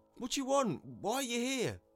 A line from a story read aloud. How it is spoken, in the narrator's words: a voice yelled from the crowd